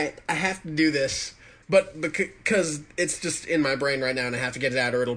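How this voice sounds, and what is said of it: Usual voice. Nothing is said of it.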